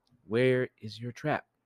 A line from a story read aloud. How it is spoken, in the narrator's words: He lowered his voice and said